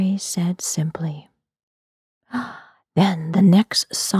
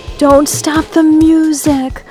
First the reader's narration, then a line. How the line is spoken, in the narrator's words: I yelled to Harry